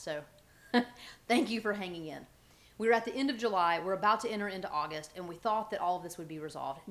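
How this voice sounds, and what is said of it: Southern US accent, fast speech. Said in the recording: “I've got this southern voice with the accent of the south, and then I start talking really fast”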